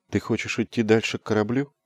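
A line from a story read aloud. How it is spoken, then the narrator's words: Soft question. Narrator (Russian): мягко спросила Лайт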